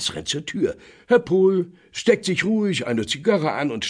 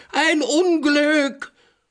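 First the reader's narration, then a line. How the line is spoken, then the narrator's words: Terrified doorman screaming. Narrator (German): Der Portier kreideweiß schreit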